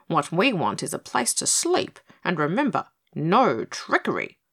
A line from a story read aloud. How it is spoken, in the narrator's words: he added sharply